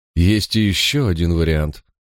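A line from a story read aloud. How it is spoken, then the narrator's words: Thoughtful drawl. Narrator (Russian): задумчиво протянул Николас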